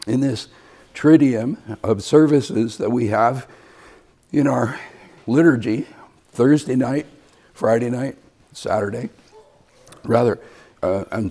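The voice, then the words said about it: Rough, unwell-sounding voice. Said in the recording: “apologize for my voice this morning. I know I sound terrible ... as I improve, I sound worse”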